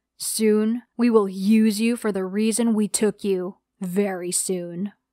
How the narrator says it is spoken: he said in a monstrous tone

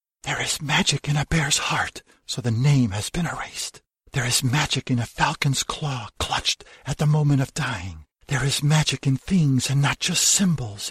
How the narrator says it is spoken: it whispers

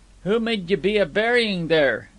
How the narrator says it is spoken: asked Lot Swanhills in a raised voice

